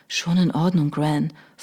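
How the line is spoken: Whisper. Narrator (German): flüsterte John

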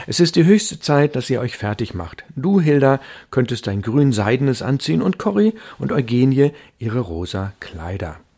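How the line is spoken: Called out. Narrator (German): rief Frau van Starren

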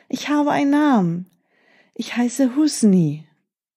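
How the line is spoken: Calling. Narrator (German): rief er

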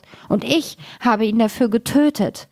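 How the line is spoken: Loud wailing. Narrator (German): und jammerte laut

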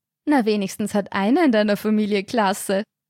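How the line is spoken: Mocking. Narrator (German): spottete Katharina

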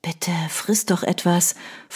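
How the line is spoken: Whisper. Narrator (German): flüsterte sie

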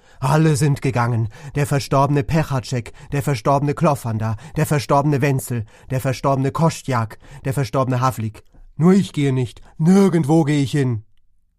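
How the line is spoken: Wild agitated scream. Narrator (German): Er schrie

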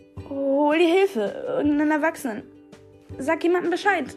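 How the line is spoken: Calling out. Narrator (German): rief

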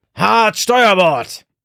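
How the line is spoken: Shouting again. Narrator (German): brüllte Rubeus erneut

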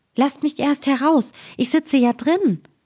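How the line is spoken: Frightened high-pitched call. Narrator (German): bekam der Daumerling Angst, dass er mit einer hellen Stimme rief

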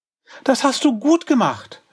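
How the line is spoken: Calling. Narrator (German): rief Tilla

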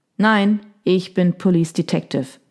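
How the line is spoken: Plain. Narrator (German): sagte Daniel

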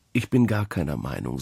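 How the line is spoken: Plain. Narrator (German): sagte er

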